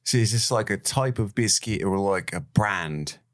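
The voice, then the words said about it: Put-on Cockney accent. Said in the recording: “What accent are you doing? ... It's Cockney. ... Does it sound Australian?”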